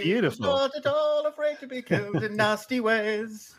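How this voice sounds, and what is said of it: Sung with a British accent. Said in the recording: “You had the British accent in there.”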